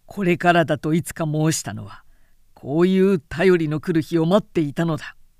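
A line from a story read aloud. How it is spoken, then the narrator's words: Satisfied smiling. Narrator (Japanese): と会心の笑みを漏らした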